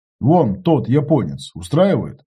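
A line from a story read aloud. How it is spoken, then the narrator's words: Plain. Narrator (Russian): ответил я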